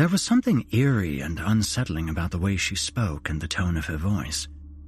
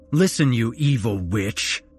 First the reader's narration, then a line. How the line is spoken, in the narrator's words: I spat out angrily